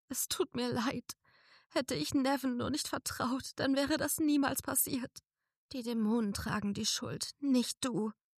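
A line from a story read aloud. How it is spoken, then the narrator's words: Sobbing. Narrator (German): schluchzte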